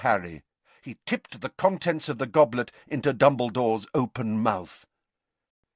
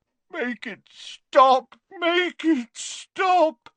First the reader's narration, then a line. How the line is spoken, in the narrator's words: moaned Dumbledore